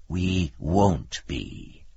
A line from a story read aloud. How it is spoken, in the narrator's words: said the demon grimly